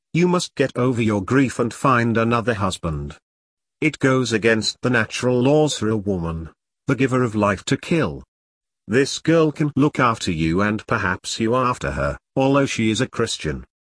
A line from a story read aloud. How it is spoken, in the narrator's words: the matron was a kindly woman and she said